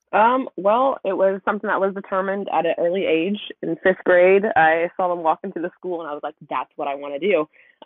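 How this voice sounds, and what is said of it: Southern US accent. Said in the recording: “I'm trying to hide it, but I'm sure by my accent, you can tell I'm from the South.”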